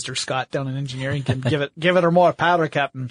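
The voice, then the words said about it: Bad put-on Scottish accent. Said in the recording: “That was the worst Scottish accent I've ever tried.”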